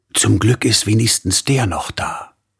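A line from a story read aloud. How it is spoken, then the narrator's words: Woman whispering. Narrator (German): flüsterte die Frau wieder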